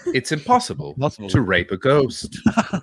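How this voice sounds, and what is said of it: Formal BBC newsreader voice. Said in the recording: “BBC News voice.”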